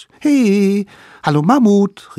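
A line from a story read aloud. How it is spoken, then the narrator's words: Cheerful calling. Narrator (German): riefen fröhlich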